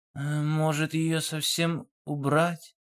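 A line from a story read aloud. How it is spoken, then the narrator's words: Timid suggestion. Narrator (Russian): робко предположил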